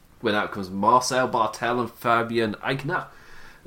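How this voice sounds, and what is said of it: Put-on German accent. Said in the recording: “I don't know why I did his in the German accent.”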